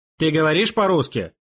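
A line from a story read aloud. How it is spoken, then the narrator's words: Stern question. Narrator (Russian): строго спросил его Петр Дмитриевич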